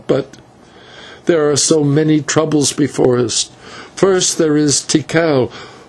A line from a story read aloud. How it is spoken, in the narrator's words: she answered with a sob